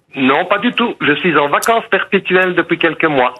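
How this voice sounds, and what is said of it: Belgian French accent, Liège region. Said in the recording (French): “Il y a un accent belge, non? ... Oui, la région liégeoise.”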